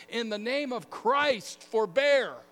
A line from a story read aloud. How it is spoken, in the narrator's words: Telemachus ... he shouted at the top of his lungs